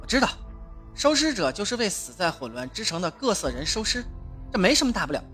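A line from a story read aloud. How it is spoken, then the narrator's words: Self-mocking laugh. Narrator (Chinese): 亚伦自嘲地笑了笑说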